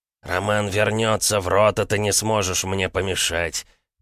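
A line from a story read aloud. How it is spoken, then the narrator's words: Through clenched teeth. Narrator (Russian): процедил Георгий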